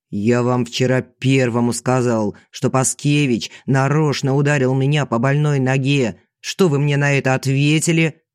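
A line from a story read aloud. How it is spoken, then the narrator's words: Mocking thin nasty voice. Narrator (Russian): Продолжаю противным тонким голосом, передразнивая звездочку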